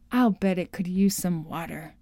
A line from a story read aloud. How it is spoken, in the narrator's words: murmured